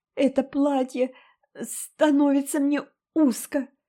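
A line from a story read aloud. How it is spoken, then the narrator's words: Sobbing. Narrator (Russian): всхлипывала она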